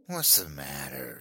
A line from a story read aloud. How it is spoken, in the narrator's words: she sneered